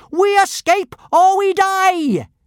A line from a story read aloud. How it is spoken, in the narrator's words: she shouted with a mad gleam in her eye